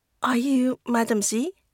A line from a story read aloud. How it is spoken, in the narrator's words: Malin falters